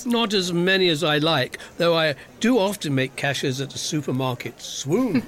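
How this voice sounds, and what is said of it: Suave accent like James Bond. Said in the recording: “You must get a lot of dates with that accent ... we all want a James Bond.”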